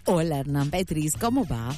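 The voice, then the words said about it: Put-on radio announcer voice. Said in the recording (Spanish): “no hace falta que pongas voz de locutora. Puedes hablarme como un ser humano normal.”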